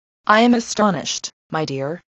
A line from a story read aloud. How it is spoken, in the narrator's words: said Mrs